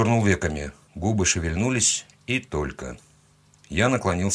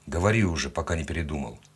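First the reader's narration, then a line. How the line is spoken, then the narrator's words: Grumbled. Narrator (Russian): буркнул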